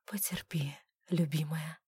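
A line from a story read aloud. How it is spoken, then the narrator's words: Whispered. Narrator (Russian): прошептал Клервуд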